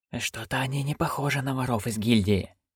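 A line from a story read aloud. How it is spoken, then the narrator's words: Young man's hiss. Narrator (Russian): прошипел юноша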